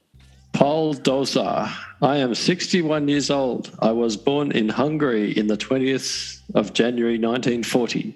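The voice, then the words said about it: Put-on Hungarian accent. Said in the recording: “Shall I do it in a Hungarian accent? ... If you could do a Hungarian accent”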